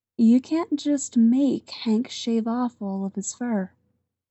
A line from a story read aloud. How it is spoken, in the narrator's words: says soothingly